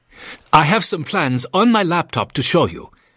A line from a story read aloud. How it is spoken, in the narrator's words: Klaus told him excitedly